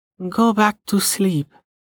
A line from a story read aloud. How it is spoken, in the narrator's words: Amelia said, her voice muffled by her pillow